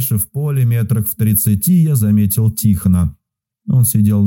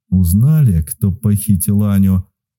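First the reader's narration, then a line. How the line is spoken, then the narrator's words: Through gritted teeth. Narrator (Russian): Процедил сквозь зубы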